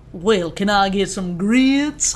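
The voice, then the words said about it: Put-on Southern American accent. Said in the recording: “Do a southern accent.”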